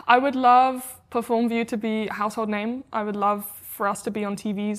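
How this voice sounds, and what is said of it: British accent. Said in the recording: “I love your accent as well ... Luckily, I haven't lost it yet in America ... I get this very like American accent. But when I speak with you, I get more like this British version.”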